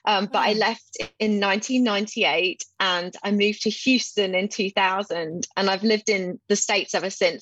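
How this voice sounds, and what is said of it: English accent. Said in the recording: “your accent is fairy tale-ish to me... My accent, I like to tell people my accent is from England”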